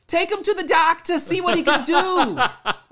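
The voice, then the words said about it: Brief put-on accent. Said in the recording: “I don't know why it was that accent.”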